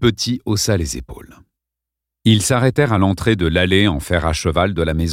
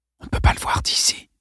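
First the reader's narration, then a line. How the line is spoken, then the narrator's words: Whispered. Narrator (French): chuchota Lawrence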